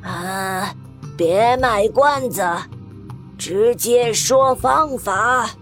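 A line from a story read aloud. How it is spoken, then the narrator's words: Sharp, stern. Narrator (Chinese): 苏鲁克厉声说道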